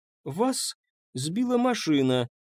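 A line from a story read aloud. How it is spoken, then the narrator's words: Uncertain babble. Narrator (Russian): неуверенно пролепетала она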